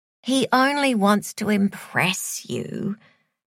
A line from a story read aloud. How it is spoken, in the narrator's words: Joy sighed